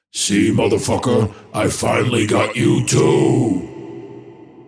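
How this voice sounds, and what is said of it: Evil villain voice. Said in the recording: “evil voice”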